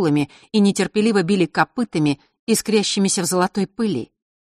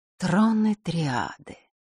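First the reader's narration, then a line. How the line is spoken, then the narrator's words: Dazed whisper. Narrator (Russian): прошептала она, словно в забытии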